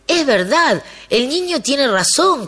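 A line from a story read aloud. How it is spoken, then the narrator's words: Crowd shouting. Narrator (Spanish): comenzó a gritar el pueblo entero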